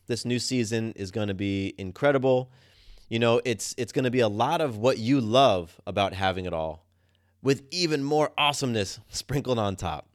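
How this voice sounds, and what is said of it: Excited, energetic voice. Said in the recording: “I'm sure you can tell in my voice, I'm just pumped”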